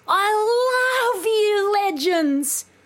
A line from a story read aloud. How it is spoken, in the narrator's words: screamed Socky